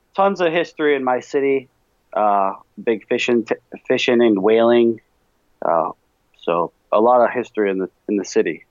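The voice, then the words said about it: Boston New England accent. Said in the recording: “you do have the quintessential New Englander Boston accent, which I think is absolutely fantastic”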